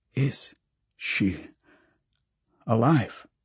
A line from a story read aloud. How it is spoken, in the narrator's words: Pracha sighs